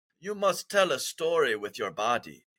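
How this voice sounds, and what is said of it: Badly imitated foreign accent. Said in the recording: “I'm gonna butcher the accent, but I'm gonna try it.”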